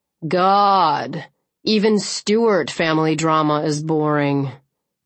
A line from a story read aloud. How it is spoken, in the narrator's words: Clancy said sullenly